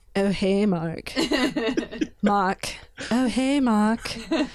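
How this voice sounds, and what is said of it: Weak attempt at a put-on accent. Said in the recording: “I can't do the accent, so pardon me”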